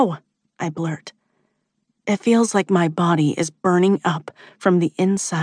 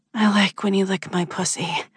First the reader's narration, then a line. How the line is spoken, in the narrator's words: I gasp